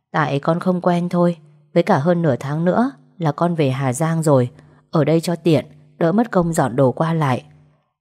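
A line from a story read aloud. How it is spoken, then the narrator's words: Faint smile. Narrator (Vietnamese): Tôi mỉm cười rất nhạt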